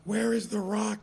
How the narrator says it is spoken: he screamed

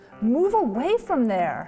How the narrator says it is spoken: cried

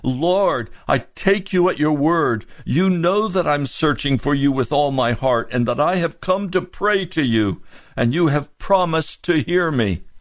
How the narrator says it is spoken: I cried out to him

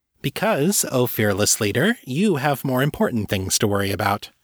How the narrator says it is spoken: Candace said

